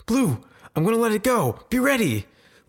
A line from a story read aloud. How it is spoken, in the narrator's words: Leaf yells from behind them as they run towards the bush